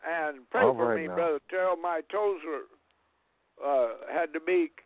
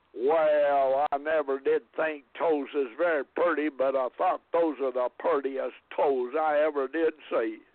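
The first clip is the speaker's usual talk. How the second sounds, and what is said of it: Imitated strong southern accent. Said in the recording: “had a pretty strong southern accent back in those days ... I can't mimic him very good, but something like this”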